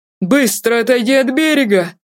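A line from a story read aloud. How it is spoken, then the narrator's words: Agitated cry. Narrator (Russian): В волнении вскрикнул Ирионус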